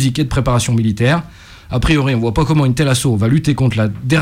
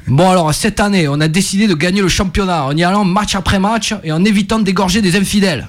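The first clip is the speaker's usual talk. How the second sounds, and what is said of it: Put-on southern French regional accent. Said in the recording (French): “Ça, c'est un accent d'Angers ? ... Oui, mais Angers du Sud. ... les accents”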